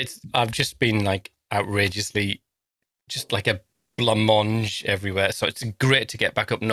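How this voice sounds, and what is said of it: Usual voice. Nothing is said of it.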